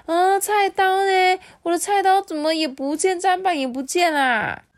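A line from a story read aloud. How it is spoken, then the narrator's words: Many voices crying out. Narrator (Chinese): 家家户户都传来的这个呼喊声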